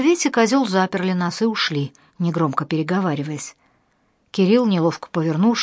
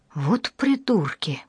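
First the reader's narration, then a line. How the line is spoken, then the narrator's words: Muttering. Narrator (Russian): пробормотал Кирилл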